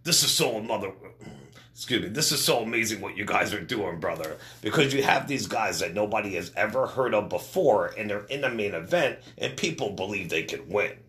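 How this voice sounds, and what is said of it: Imitates another person's voice. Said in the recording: “I messed up on my Hogan impersonation.”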